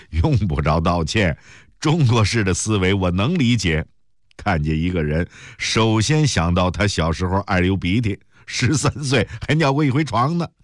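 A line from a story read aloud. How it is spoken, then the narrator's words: Hearty laughter. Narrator (Chinese): 陆成伟大笑起来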